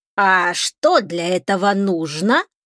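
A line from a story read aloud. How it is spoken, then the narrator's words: Creaky fence voice. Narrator (Russian): проскрипел забор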